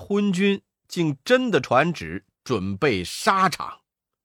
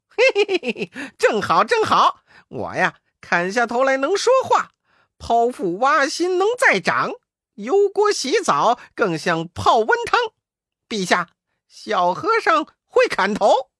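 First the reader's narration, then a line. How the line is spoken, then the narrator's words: Hearty laughing. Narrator (Chinese): 悟空哈哈大笑说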